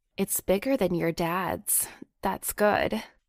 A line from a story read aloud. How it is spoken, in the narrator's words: she purred teasingly